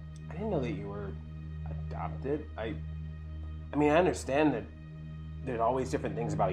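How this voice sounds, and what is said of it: Usual voice. Nothing is said of it.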